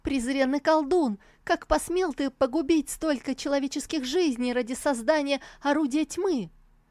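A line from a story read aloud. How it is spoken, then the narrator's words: Indignant shouting. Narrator (Russian): От возмущения она закричала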